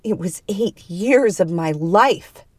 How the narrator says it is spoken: she growled

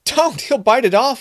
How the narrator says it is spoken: Robin cried

